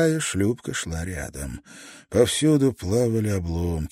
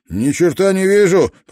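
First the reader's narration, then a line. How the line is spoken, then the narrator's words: Shouting. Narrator (Russian): прокричал шкипер второй шлюпки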